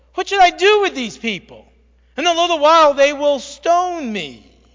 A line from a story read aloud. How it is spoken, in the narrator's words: Moses cried out to the Lord